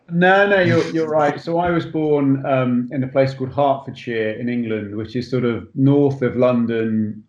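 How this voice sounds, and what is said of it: English accent. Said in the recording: “I'm here in an English accent”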